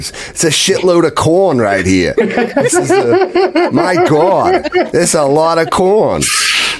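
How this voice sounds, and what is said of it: Put-on Boston accent. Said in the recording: “I love with the Boston accent makes it even”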